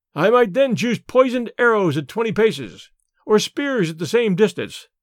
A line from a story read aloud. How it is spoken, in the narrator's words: laughed Tarzan